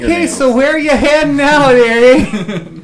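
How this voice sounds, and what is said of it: Put-on Wisconsin accent. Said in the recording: “Hints of a Wisconsin accent.”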